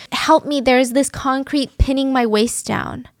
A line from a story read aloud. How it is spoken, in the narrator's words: she just kept screaming, panicking